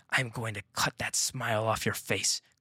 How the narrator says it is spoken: growled Lila as she staggered to her feet

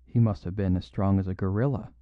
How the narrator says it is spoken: he muttered

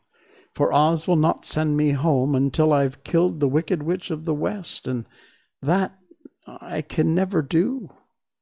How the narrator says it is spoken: she said sadly

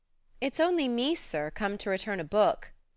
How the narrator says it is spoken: she said blandly

